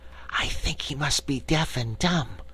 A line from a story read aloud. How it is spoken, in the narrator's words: Cake whispered